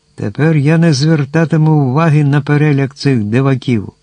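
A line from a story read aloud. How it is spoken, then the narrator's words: Giant cheerfully exclaiming. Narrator (Ukrainian): Зачарований довгими і лункими словами, простодушний велетень забув своє горе і весело вигукнув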